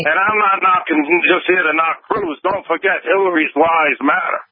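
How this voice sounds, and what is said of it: Thick New York accent. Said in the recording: “that thick New York accent ... your New York accent”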